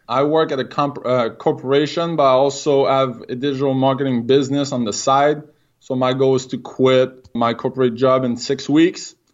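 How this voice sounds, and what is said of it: French-Canadian accent. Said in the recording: “I'm French-Canadian. If I got an accent, that's the reason why.”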